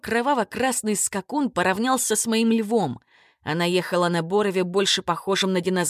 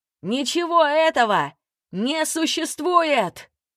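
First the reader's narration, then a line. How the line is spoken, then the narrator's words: Shout. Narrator (Russian): крикнул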